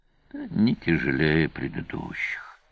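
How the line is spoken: Sighing. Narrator (Russian): вздохнул Сварог

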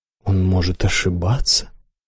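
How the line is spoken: Muttering. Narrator (Russian): пробормотал правитель

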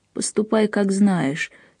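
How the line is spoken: Dry toneless voice. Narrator (Russian): сказал на удивление сухим, беззвучным голосом

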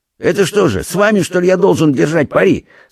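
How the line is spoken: Angry snap. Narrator (Russian): со злостью огрызнулся пристав

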